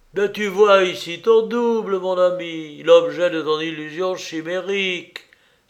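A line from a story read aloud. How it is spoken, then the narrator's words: Exclamation. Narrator (French): s'écria Rixendorf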